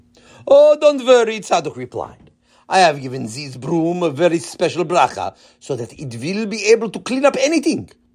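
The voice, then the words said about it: Heavy Israeli accent. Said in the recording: “in his heavy Israeli accent”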